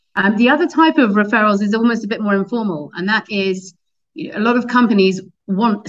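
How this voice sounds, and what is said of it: Non-American accent. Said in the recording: “we're a US-based business, despite my accent”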